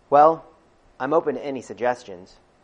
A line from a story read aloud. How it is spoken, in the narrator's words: I replied cheerfully